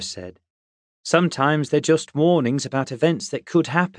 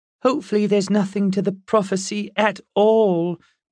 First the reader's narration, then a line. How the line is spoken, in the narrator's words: Olive said miserably